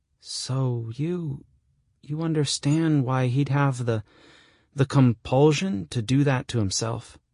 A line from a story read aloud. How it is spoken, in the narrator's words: I groan